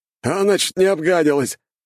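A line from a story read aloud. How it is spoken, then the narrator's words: Laughing soldier. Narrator (Russian): хохотал боец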